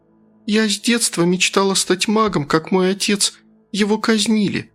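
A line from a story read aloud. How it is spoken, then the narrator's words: Girl, sad. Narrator (Russian): печально продолжила девушка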